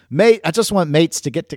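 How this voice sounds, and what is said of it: Put-on Australian accent. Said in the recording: “this is my Australian accent.”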